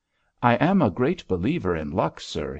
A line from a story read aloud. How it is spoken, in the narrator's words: he said